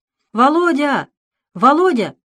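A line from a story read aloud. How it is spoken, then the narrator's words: Shouting. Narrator (Russian): закричал Дэвид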